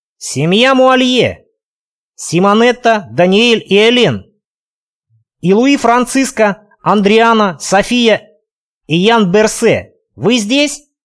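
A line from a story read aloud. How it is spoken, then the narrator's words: Loud shout. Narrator (Russian): громко выкрикнул я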